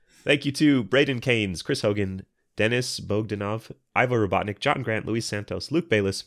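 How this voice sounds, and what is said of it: Sick-sounding voice. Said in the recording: “read their names in a sick voice”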